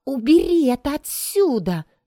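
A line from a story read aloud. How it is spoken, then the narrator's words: Exclaimed. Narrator (Russian): воскликнула она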